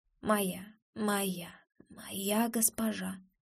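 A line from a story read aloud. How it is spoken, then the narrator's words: Faint exhausted whisper. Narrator (Russian): Он шепчет это едва слышно, измученно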